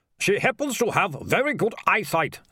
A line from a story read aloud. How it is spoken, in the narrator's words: snapped the mayor